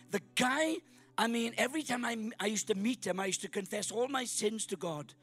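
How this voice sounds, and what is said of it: Welsh accent. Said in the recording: “I'm from Wales. Got a Welsh accent, as you can tell.”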